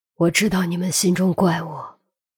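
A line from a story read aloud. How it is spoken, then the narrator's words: Sigh. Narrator (Chinese): 孔玉德叹了口气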